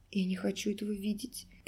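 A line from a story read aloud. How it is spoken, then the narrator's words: Whisper. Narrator (Russian): прошептала Алиса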